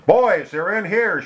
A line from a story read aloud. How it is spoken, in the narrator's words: she shouted